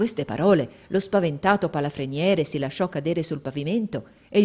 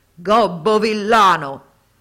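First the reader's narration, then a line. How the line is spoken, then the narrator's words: Thundering buffalo shout. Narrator (Italian): il genio si cangiò all'istante in un possente bufalo e sotto cotesta forma gli gridò con voce tuonante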